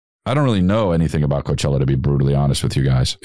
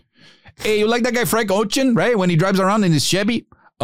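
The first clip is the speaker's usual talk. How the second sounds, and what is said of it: Put-on Mexican accent. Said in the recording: “Let's do a Mexican accent.”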